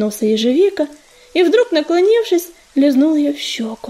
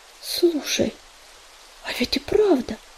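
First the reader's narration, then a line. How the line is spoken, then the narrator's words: Confused mutter. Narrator (Russian): Растерянно пробормотал ежевика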